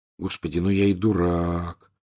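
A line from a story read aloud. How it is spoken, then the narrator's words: Quiet voice. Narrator (Russian): тихо произнес он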